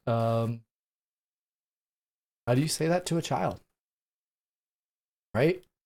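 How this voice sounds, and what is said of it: Emotional, choked-up speech. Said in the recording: “Excuse me as I'm getting emotional here”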